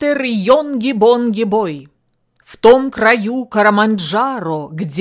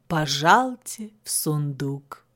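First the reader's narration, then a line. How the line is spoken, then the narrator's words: Soft, unirritated speech. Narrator (Russian): мягко, без раздражения, говорил он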